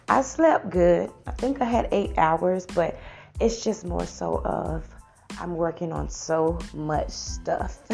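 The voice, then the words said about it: Tired-sounding voice. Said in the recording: “I'm kind of tired. You can hear it in my voice”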